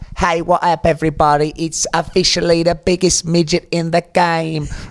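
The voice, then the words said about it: Imitates another person's voice in accent. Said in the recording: “can you do it in an accent ... Very expressive body movements to go with that impression.”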